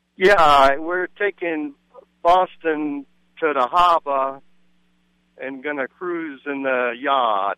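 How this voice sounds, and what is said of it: Attempted Boston accent. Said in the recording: “give me your best Boston accent ... He got yard decent there.”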